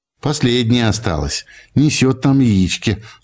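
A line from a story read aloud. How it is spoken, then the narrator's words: Old man, affectionate. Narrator (Russian): ласково поглядывая на птицу, сказал дядя Егор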